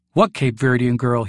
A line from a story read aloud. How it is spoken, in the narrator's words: he says dryly